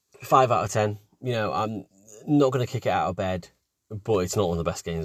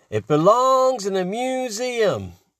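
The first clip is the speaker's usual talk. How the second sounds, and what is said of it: Impression of a Last Crusade line. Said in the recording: “one of the quotes from Last Crusade ... that was a really good impression”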